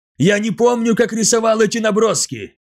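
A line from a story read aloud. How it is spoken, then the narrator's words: Excited exclamation. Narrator (Russian): взволнованно воскликнул Махавасту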